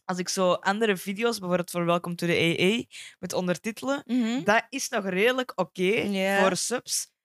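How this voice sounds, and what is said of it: Strong, broad regional Flemish accent. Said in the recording (Dutch): “met mijn accent gaat dat echt een ramp zijn ... Dat gaat vrij plat zijn ... Wat zo'n harde accent”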